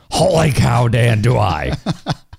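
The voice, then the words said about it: Bad Harry Caray impression. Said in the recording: “that Harry Carey, if you didn't realize that is Harry Carey ... And it's a terrible impression. Terrible.”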